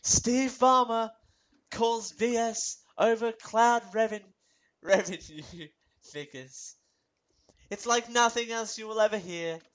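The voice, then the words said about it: Silly put-on voice. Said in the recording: “this is a terrible voice that I don't know what I'm doing ... in this stupid voice”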